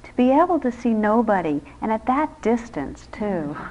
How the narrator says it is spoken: remarked in a fretful tone

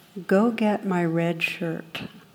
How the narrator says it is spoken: captain replies very calmly

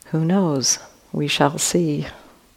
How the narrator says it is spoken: Calmly answered

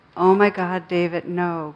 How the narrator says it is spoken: cried Glenda when she saw the bright lights headed straight for their car

